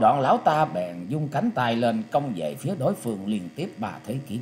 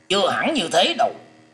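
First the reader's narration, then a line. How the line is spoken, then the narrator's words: Very angry. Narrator (Vietnamese): Lôi Minh Tiêu hết sức giận dữ nói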